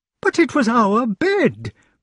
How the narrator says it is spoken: cried the lady, like one of the three bears

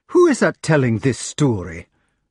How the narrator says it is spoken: asked Gareth angrily

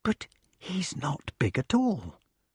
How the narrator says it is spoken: whispered the wart disappointedly

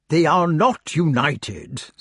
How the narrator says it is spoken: said Merlin crossly

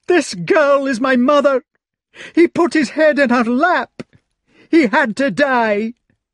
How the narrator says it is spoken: Agravain bawled

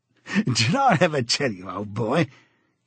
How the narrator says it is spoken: he said, chuckling round the stem of his pipe

